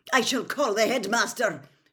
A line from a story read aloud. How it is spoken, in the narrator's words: shouted Professor McGonagall